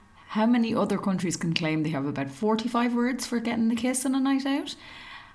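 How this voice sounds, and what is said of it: Irish accent. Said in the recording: “my little Irish accent”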